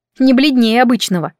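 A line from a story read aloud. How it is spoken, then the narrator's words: Snorting. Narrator (Russian): фыркнула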